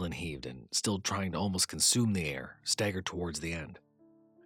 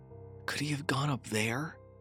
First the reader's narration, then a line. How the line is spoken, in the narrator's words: Mason asked weakly